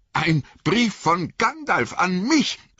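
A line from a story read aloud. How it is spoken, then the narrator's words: Calling out. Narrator (German): rief Frodo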